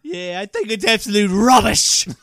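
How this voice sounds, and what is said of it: Put-on British accent, unconvincing. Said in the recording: “are we going to unveil this British accent? ... If we had any British listeners, they just drove themselves off the wrong side of the road into a ditch.”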